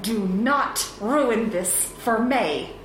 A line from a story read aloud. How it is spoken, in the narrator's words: she hissed